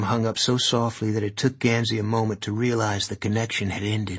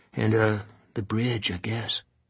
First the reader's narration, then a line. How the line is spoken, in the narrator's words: Adam whispered finally